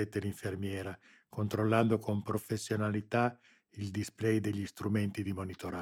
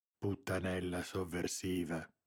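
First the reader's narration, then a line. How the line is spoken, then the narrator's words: Silent growl. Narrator (Italian): ringhiò in silenzio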